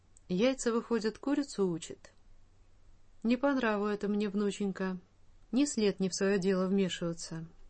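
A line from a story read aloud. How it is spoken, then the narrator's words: Dry. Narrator (Russian): Наконец сухо сказал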